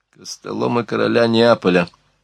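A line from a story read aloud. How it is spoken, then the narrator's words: Grumbled. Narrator (Russian): проворчал Бейль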